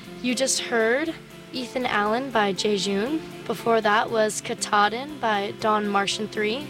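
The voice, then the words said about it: Weak, fading hoarse voice. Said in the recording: “My voice has been going away the past couple days, so bear with me.”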